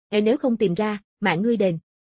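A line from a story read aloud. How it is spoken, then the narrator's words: Cold. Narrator (Vietnamese): Mộ Phong lạnh lùng nói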